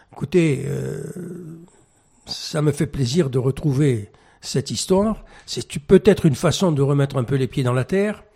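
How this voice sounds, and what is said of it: French with a Mediterranean foreign accent. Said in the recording (French): “je pense que mon accent me trahit ... quelqu'un qui vient de l'autre côté de la Méditerranée”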